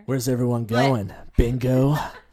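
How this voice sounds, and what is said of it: Imitates a video game character's voice. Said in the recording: “my Leon impression”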